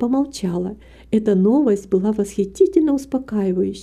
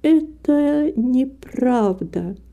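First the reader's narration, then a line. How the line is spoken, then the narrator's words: Slow indignant. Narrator (Russian): медленно и с негодованием произнесла Рита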